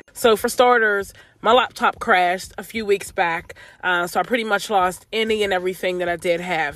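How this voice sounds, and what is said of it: Slightly off voice, recovering cold. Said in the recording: “my voice is off just a bit. I'm literally just getting over a cold. I feel like my voice has just not fully recharged. So if I do sound a bit off”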